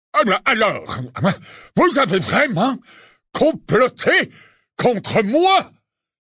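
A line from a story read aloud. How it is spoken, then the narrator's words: Exclamation. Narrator (French): s'écria-t-il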